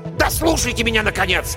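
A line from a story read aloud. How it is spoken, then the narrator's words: Sharp shout. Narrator (Russian): прикрикнул он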